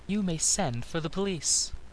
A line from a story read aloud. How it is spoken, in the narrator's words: said the girl coolly